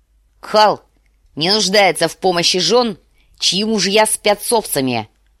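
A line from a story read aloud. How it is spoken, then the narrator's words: Barked. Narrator (Russian): рявкнул Квота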